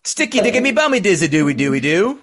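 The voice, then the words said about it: Mock Cockney accent gibberish. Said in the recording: “not any of that Cockney shit ... that Cockney type”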